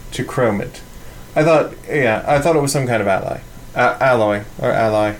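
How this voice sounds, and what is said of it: Fake British accent. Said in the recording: “How's my fake British accent”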